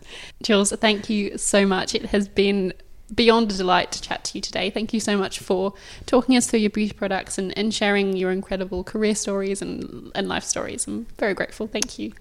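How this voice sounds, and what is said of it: Fancy-sounding accent. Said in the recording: “this accent because it's so much more fancy”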